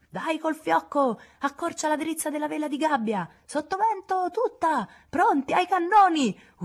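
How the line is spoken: Alarmed shouted orders. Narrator (Italian): urlò il capitano all'avvistare un legno pirata portoghese

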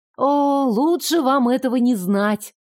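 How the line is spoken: Silent inner groan. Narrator (Russian): простонала мысленно

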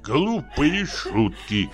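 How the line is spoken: Grumbling. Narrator (Russian): проворчал он

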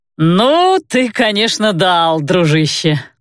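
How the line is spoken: Drawling. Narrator (Russian): протянул Виталий

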